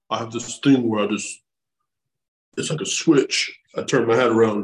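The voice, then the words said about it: Imitates another person's voice. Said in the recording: “terrible Sylvester Stallone impersonation”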